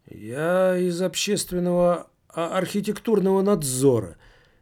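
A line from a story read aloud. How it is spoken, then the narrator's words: Unsure mumble. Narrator (Russian): неуверенно пробормотал первое, что пришло в голову Таборский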